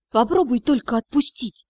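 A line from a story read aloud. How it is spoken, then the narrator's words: Quiet. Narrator (Russian): тихо сказала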